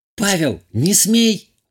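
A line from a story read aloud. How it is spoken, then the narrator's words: Woman exclaiming. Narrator (Russian): воскликнула хозяйка дома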